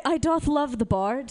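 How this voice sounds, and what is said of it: Theatrical Shakespearean voice. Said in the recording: “to do a Shakespearean voice.”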